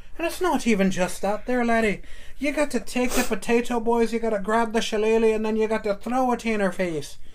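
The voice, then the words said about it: Put-on Irish accent. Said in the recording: “start doing some stuff with the Irish accent”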